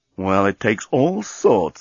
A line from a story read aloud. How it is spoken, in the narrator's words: murmured Dan